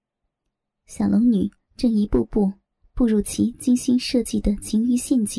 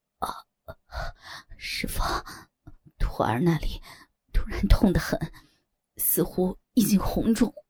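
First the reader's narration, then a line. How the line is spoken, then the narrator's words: Panting, feigned pain. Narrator (Chinese): 左剑清假装下体疼痛难忍，喘着气道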